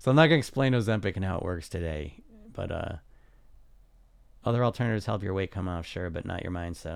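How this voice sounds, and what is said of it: Slightly rough, off-sounding voice. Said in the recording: “my voice is a little off. My throat's a little off.”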